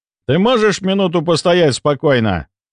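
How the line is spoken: Loud bark through speakers. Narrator (Russian): Врубив внешние динамики, гаркнул я на Агаши

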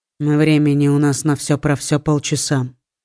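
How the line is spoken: Calm tone. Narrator (Russian): тем же спокойным тоном сообщил Литер

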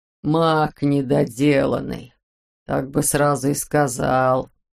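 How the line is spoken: Hoarse voice. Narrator (Russian): произнес он сипло

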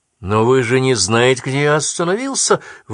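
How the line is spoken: Exclaimed. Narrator (Russian): воскликнул я

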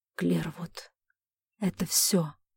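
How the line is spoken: Father's hoarse rasp. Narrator (Russian): прохрипел отец

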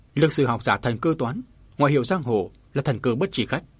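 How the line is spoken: Stern. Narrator (Vietnamese): Vân Minh cư sĩ nghiêm giọng nói

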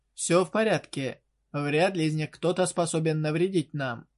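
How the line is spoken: Sighing, reassuring. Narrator (Russian): вздохнув, успокаивающе произнес Арт-П

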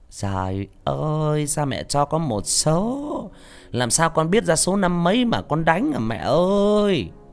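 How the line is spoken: Mocking sing-song voice. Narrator (Vietnamese): Cái giọng âm dương quái khí như hát cải lương

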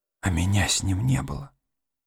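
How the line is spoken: Whisper. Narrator (Russian): прошептала она

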